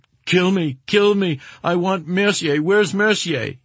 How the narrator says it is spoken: He was sobbing

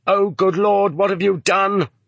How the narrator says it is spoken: someone in the hall shouted

